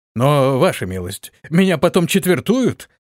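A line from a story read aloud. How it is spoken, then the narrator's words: Horrified exclamation. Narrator (Russian): воскликнул в ужасе воин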